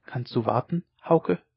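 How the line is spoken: Quiet question. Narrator (German): frug sie leise

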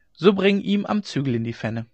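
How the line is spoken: Laughing. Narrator (German): setzte Hauke lachend hinzu

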